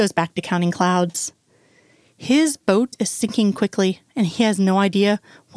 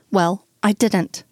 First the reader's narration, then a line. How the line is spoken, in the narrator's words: says curtly